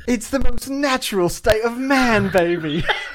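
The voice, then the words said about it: Austin Powers impression, British accent. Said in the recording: “Your accent needs to, you can do better than that. I know you can. Make yourself sound like Austin Powers.”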